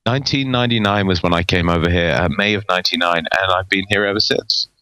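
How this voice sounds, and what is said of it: British accent. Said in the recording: “You have not lost your British accent.”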